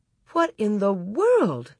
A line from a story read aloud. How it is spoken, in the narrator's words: Ma exclaimed